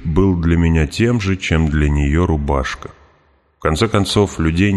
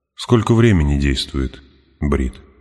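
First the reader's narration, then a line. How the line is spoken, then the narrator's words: Plain. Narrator (Russian): спросил я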